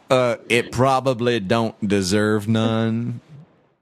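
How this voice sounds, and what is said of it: Fake lower-class Klingon accent. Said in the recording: “fake Klingon accent ... that was lower class Klingon”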